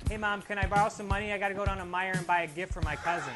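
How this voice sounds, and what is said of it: Michigan accent. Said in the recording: “Best Artist for a Michigan Accent”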